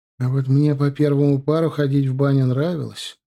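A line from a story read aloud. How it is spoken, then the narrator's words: Sighed. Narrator (Russian): вздохнул Балабанов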